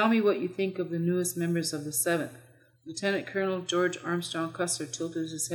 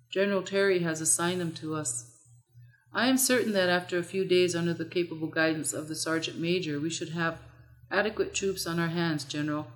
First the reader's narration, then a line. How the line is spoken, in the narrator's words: Benteen replied